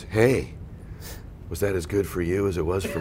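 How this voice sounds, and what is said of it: Sultry seductive voice. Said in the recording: “In this like really like sexy voice.”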